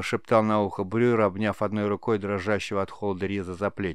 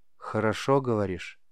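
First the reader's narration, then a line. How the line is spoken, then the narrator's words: Quiet boy, for one listener. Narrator (Russian): негромко, так, чтоб слышал только командир, произнес мальчик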